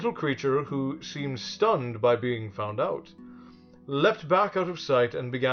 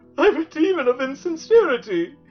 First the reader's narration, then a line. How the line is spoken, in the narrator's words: he sobbed